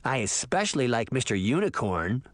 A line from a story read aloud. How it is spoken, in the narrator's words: Sabrina laughed